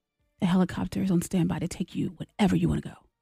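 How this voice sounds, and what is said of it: Soft ASMR-style reading voice. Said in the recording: “It's a little creepy... a little scary... Reading stuff in a way that makes your body tingle”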